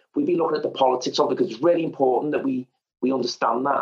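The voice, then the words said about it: Liverpool Scouse accent. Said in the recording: “I am a Scouser, Liverpoolian. You can probably tell that from the accent... British regional accents”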